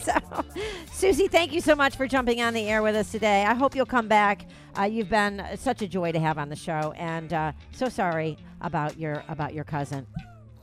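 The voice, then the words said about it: Talking very fast. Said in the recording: “That's why I'm talking so fast”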